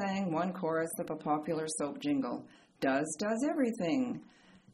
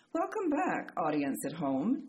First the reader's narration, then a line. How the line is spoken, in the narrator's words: Diane said warmly